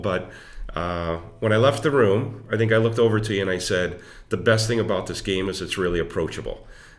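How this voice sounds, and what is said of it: Voice sounds affected, slightly unwell. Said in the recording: “excuse my voice. I'm getting over a cold.”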